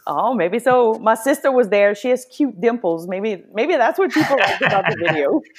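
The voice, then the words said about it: Cajun Louisiana accent. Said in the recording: “he loves your accent ... I could just sit there and listen to her accent all day long ... Maybe you just got to get more Cajuns on”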